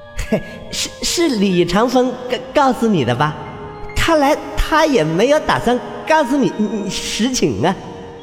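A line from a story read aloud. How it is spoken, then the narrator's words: Faint smile. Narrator (Chinese): 张生死死微微一笑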